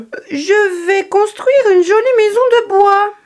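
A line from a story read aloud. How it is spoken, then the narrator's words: Cried out. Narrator (French): s'écria-t-il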